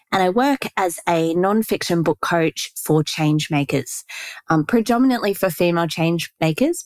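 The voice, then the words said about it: Australian English accent. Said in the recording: “As you can probably tell from my accent, I live in Australia.”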